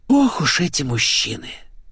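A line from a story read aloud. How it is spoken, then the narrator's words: Worldly-wise sigh. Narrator (Russian): С видом умудренной женщины вздохнула Светик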